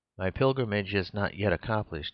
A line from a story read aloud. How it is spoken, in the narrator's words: replied sadly